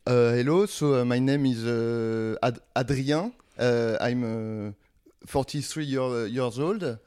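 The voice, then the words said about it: Exaggerated French tourist accent in English. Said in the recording (French): “je vais le faire avec un accent. Je vais pas essayer d'avoir un bon accent, comme ça, ça va faire encore plus euh, touriste euh, ah, français.”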